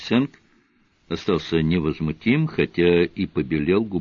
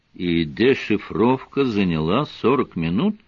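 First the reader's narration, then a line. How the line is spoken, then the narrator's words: Calm question. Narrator (Russian): спокойно спросил он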